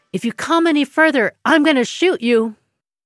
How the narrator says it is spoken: She shouts

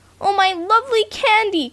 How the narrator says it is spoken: cried Freddie

